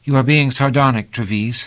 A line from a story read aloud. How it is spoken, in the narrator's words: said coolly